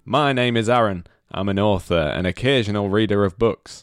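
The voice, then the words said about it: Imitates another person's voice. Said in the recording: “This is my John Cooper Clarke impression. ... Yeah, I thought it was. It's very good.”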